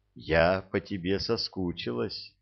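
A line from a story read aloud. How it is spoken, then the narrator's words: Intimate whisper. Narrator (Russian): прошептала, прижимаясь к нему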